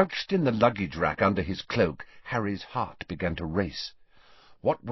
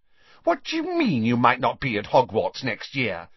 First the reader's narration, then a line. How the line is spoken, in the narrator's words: said Pansy indignantly